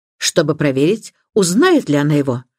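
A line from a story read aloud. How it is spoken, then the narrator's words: Sharp question. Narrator (Russian): резким тоном спросила миссис Бантри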